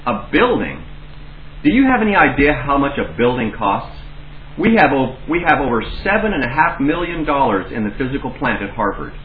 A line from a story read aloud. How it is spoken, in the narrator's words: he exclaimed